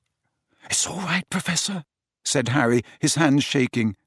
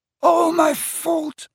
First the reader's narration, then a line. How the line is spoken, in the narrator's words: he sobbed